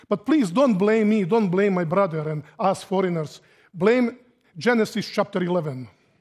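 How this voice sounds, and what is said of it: Heavy foreign accent. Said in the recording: “we have a heavy accent. And some of you will have to make big effort to understand me ... But my accent is hard ... I left Yugoslavia”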